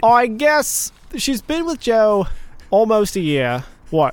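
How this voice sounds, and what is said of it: Slips into an odd unidentified accent. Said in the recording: “You've slipped into a third unknown type of accent... I think you've gone Christian Bale”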